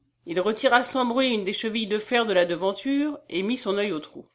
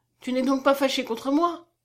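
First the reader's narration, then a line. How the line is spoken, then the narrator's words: Exclaiming. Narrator (French): s'écria-t-elle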